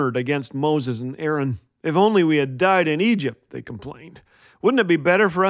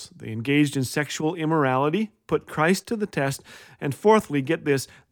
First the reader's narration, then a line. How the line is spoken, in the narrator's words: they murmured